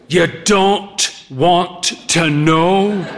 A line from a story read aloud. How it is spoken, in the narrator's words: said